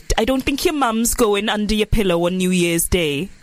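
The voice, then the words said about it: Put-on Welsh accent. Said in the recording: “I can't do a Welsh accent. Why did I even try? ... That's good. ... Really good.”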